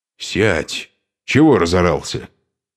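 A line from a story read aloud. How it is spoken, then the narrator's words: Angry retort. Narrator (Russian): Сердито бросил гололоб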